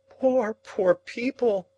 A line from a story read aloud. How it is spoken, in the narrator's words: cried Mrs